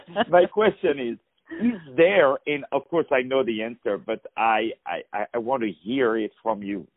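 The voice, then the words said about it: Foreign accent, non-native speaker. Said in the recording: “As you can hear with my accent, I was not born here”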